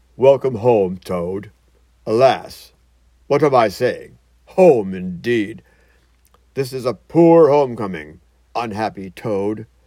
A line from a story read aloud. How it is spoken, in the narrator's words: He came solemnly and said